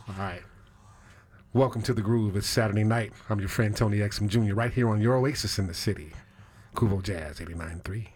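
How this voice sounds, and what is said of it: Smooth jazz radio host voice. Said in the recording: “do my jazz voice ... Give me your best jazz voice”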